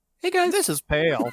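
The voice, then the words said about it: Imitates another person's voice. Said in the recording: “best Pale impression?”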